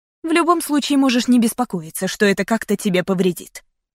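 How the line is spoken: Sharp reply. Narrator (Russian): резко ответила

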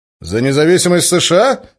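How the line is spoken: Skeptical snort. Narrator (Russian): хмыкнул Денис

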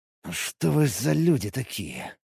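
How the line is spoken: Breathed out. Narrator (Russian): выдохнул я

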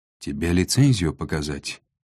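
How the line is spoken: Tired reply. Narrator (Russian): устало отозвалась Шера

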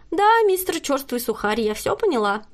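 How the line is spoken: Cheerful, smiling. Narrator (Russian): весело улыбнулась Кристина

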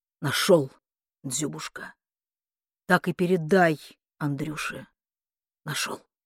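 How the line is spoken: Throat cleared, quiet and firm. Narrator (Russian): Он прокашлялся и тихо, твердо сказал

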